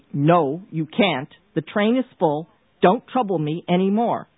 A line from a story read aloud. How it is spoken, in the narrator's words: he said sharply